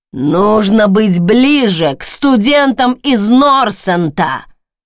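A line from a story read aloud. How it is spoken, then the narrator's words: Booming. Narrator (Russian): прогремели слова профессора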